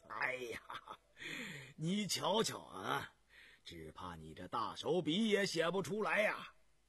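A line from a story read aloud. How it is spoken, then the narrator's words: Breathless, uncontrollable laughter. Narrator (Chinese): 康熙忍不住失笑，笑不可遏，噎着气说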